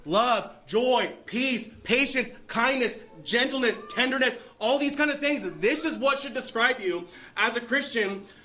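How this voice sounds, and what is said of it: Yelling, loud preaching voice. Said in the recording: “while I'm yelling”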